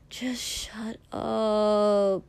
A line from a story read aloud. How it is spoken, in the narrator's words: Mina groaned